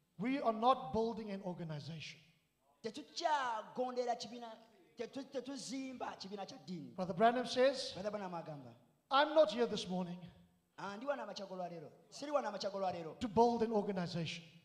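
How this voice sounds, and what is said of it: South African accent. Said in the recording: “my South African accent”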